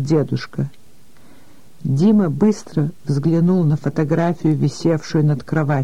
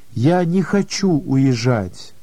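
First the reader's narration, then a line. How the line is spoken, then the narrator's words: Slow speech. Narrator (Russian): медленно проговорил Дима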